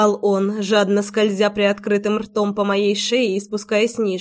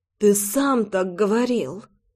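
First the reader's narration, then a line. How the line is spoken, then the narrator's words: Moan. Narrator (Russian): Простонала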